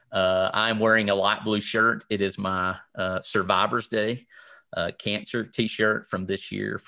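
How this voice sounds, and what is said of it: Southern US accent. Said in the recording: “you probably could tell from the accent that I'm from the South”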